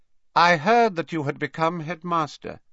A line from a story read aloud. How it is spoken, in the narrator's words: he said, and his voice was slightly higher and colder than it had been